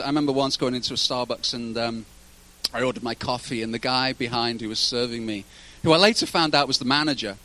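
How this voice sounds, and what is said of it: Accent likened to Pierce Brosnan's. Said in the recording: “great accent. ... you sound a lot like Pierce Brosnan. ... Pierce Brosnan's Irish. I'm not Irish.”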